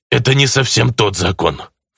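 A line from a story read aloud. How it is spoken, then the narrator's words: Snorting. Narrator (Russian): фыркнул артефактор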